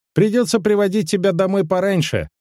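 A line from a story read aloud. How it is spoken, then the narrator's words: Cheerful, playful. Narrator (Russian): весело подмигнул ей юноша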